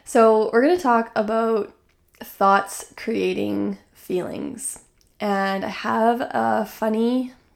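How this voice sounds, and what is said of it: Hoarse, croaky voice. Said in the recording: “my apologies for my hoarse voice this morning. It's like kind of croaky”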